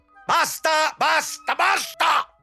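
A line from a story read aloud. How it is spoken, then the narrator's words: Thundering. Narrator (Italian): tuonava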